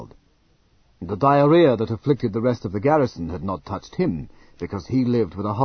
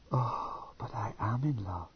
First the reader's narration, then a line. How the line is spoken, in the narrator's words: she whispered